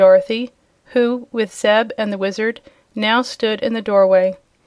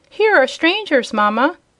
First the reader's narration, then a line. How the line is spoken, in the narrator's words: cried the shrill and childish voice of some unseen person